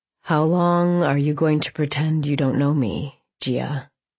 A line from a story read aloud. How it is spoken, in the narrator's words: he purred